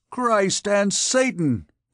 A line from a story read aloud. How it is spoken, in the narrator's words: exclaimed the captain